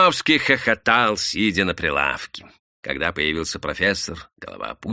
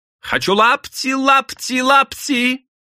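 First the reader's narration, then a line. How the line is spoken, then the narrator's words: Wailing yell. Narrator (Russian): Лим вопил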